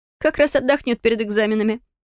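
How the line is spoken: Chuckling. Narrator (Russian): хохотнула Фелия

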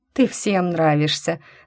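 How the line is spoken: Good-natured chuckle. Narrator (Russian): добродушно хмыкнула Джойс

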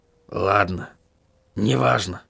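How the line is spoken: Muttered. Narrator (Russian): пробормотал он

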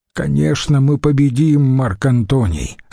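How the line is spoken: Plain. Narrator (Russian): сказал он

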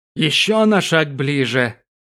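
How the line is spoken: Giant's vicious distorted growl. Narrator (Russian): Злобно осклабившись, прорычал исполин так, точно его мясистые губы увечат, уродуют каждое слово

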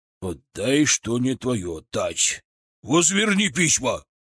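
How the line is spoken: Roar like wounded beast. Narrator (Russian): Раненым зверем взревел патриарх

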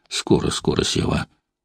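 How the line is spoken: Mumbled reply. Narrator (Russian): Устинья Прохоровна бормотала в ответ

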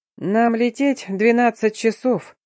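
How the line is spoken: Explaining with loud chuckle. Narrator (Russian): хохотнув в голос, пояснил наш наставник

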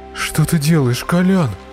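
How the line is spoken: Hoarse rasp. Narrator (Russian): прохрипел Марк

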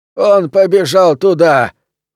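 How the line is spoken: Loud, confident, yet weary shout. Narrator (Russian): громко и уверенно, но в то же время дрябло и устало, прокричал кто-то со стороны дома

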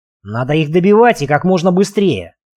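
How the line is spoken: Barking. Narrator (Russian): рявкнул Марк

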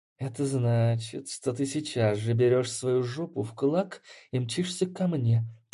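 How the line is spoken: Words through gritted teeth. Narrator (Russian): процедила Змеева

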